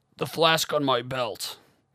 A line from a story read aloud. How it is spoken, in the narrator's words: Cole bellowed